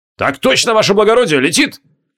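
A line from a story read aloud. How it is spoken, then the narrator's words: Barked. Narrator (Russian): гаркнул Бисиман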